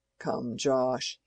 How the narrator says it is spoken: he said in a cajoling tone

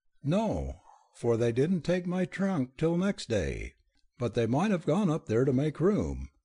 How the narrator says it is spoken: Gabriella conceded cheerfully, distressed at the continued pallor of her aunt's face

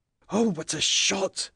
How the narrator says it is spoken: whispered Harry, who was trembling with excitement

